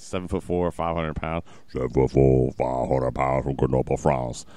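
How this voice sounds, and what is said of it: Imitates another person's voice. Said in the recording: “That's my Andre the Giant impression. ... That was perfect.”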